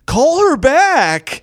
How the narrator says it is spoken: this lady in the audience yells

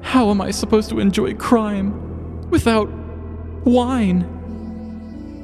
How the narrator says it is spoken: Gabriel wailed to himself

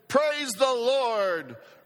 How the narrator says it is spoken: for the benefit of her atheist neighbor, she shouted

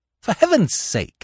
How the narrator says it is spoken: I cried

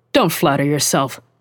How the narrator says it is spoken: Charles snapped

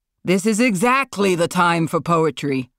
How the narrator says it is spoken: Marlon shouted

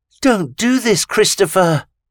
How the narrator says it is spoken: Vita pleaded

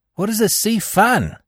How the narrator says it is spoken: I laughed

